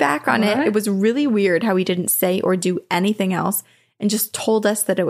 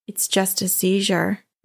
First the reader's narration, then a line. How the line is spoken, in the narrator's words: He way too calmly said